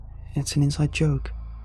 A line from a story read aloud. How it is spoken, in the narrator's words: she spoke very quietly